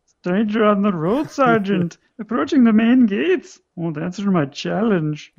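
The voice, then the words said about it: Comic German accent, Colonel Klink. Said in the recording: “That's how they're all going to talk from now on, like Colonel Klink ... the sound effects are in a German accent as well”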